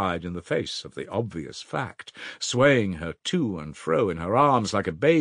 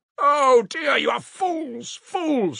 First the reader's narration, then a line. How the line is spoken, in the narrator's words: cried, addressing the whole room